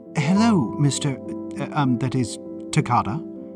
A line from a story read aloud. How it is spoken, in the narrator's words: Maud stammered